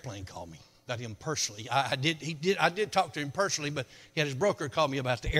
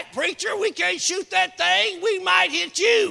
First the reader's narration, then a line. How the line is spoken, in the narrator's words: they hollered back